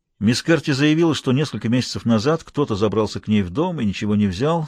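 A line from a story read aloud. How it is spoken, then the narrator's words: Plain. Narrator (Russian): сказал Смайлоу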